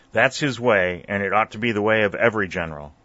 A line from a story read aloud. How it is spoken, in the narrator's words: growled Forrest